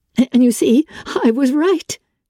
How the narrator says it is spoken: she exclaimed, her blue eyes wet with victory

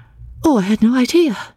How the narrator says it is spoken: she exclaimed, getting very red

